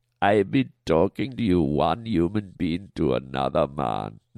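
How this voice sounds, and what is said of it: Put-on Rastafarian accent. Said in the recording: “Are you doing a Rastafarian voice? ... a guy in cranberry pants is going to try and do a Rasta voice to me”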